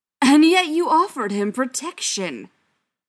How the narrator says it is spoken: Schechter yelled, the loss of control an uncharacteristic thing in so public a place

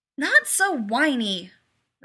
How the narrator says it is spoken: Rodney snapped

